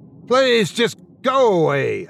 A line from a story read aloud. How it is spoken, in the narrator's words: I shouted